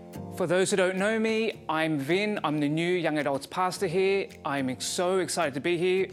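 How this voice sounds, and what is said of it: Quebec French accent. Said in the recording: “the words that are coming out of my mouth, you are correct. My accent is from Quebec.”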